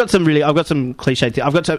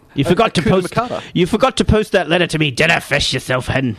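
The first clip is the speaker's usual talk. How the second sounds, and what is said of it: Put-on Scottish accent. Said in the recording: “19 things that only Scottish people say ... My accent's amazing.”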